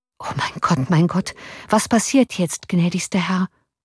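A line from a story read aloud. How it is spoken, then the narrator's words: Officer murmuring. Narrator (German): murmelte der Offizier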